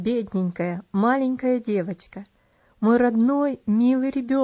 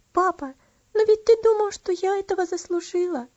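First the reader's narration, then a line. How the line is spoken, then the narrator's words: Sobbing. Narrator (Russian): Разрыдавшись, сказала она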